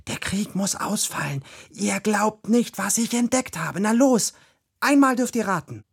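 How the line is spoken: Excited whisper. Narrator (German): flüsterte Ronja aufgeregt

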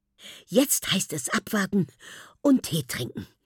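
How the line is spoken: Breathless. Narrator (German): sagt sie atemlos

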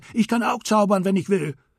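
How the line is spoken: Monkey shrieking. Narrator (German): Der Affe kreischte

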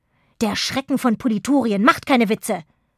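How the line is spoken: Hissed. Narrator (German): fauchte Schnute

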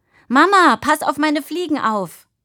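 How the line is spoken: Called out. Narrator (German): rief

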